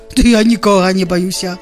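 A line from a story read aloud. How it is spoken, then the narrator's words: Monstrous roar. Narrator (Belarusian): зароў страшэдла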